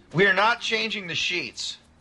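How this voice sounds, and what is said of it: Yelling, raised angry voice. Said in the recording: “Why are you yelling at me?”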